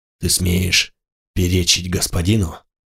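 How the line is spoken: Muffled, sinister, hollow voice. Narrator (Russian): Голос Мигеру из-под маски звучал глухо, зловеще, как из колодца

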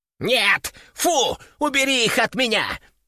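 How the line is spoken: Panicked yelling. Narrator (Russian): В панике заорал

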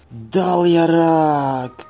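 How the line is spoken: Hissing. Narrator (Russian): прошипел он

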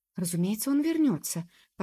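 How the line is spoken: Hasty confident exclamation. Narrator (Russian): поспешно воскликнула Джуб, ничуть не сомневаясь

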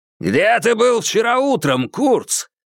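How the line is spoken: Barked. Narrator (Russian): рявкнул Хэтэуэй

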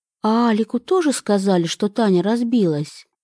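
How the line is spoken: Plain question. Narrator (Russian): спросила она

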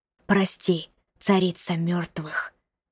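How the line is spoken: Many voices whispering. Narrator (Russian): зашептали голоса

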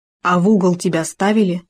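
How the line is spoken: Plain. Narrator (Russian): спросил Хома

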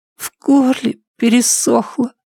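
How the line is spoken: Hoarse whisper. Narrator (Russian): хрипло прошептал Шон

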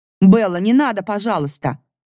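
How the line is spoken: Desperate shout. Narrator (Russian): отчаянно крикнула Елена

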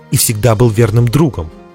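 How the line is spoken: Sharp objection. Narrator (Russian): резко возразил Дзирт

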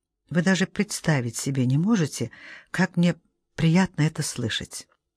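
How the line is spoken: Whisper. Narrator (Russian): Анна прошептала

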